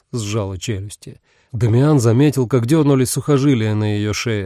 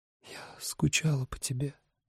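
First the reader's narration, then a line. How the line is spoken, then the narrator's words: Whisper. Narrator (Russian): прошептала она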